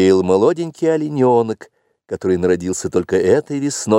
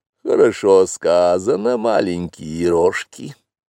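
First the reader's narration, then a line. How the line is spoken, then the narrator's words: Purr. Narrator (Russian): промурлыкала Багира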